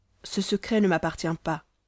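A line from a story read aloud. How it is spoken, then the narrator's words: Grave tone. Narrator (French): dit-elle d'un ton grave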